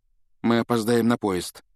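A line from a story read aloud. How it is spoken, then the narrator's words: Dejected voice. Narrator (Russian): упавшим голосом проговорил он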